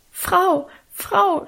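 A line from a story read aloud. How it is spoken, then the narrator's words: Stammering. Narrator (German): stammelte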